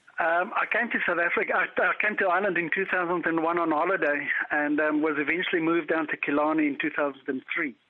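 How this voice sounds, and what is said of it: South African accent. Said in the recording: “It's not a Kerry accent. ... No, not at all. I'm from South Africa.”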